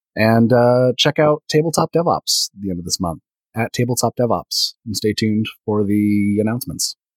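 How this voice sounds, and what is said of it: Soothing radio voice. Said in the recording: “the soothing sounds of your radio voice”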